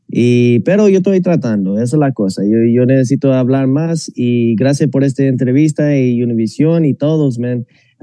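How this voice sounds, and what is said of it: American gringo accent in Spanish. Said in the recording (Spanish): “yo tengo ese acento de gringo”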